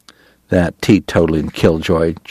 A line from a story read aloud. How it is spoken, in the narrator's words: Chalky muttered